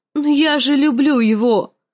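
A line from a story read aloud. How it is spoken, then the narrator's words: Confused frightened moan. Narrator (Russian): простонала Санса в смятении и испуге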